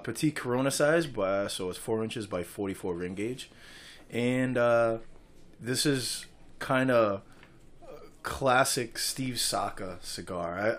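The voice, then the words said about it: New England accent. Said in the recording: “We said no accent. ... My New England accent is stuck with me for the rest of my life.”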